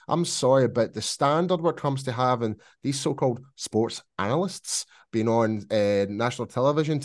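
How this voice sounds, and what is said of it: Scottish accent. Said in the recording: “It's my tongue, my Scottish accent.”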